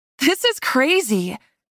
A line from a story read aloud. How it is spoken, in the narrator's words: I laughed as Seth rose beneath me and my belly swooped